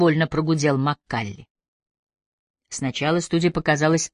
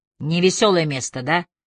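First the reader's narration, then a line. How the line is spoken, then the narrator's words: Snort. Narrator (Russian): хмыкнул Маккалли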